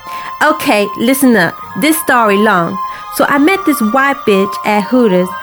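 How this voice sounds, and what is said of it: Put-on American accent. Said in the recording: “I'm going to do my best to put an American accent for you”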